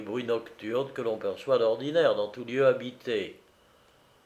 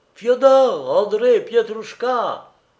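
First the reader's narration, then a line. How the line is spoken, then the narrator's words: Shouted. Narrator (French): hurla Naoum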